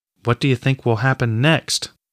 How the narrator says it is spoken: Osborne asked, his voice quivering, betraying his own fears

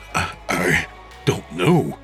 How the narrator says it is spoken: he stammered

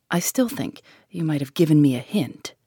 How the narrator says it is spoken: grumbled

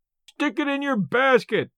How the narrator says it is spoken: yelled Merritt, in a delight that showed how hard he was pulling for the gate money

